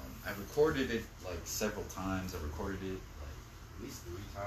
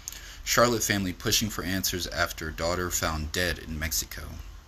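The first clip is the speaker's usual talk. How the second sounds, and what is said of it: Polished news-reading voice. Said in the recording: “In my nice voice. My reading voice.”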